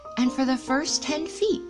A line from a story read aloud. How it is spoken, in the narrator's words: Tigger said happily to himself